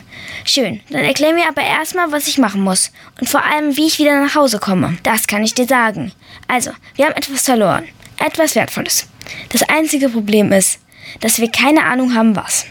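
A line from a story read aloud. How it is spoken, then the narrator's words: Plain, animal speaker. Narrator (German): sagte das Tier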